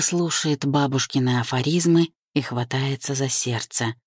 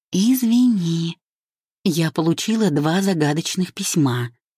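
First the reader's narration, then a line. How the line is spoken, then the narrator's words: Sighing explanation, mother. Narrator (Russian): поясняет мама, вздохнув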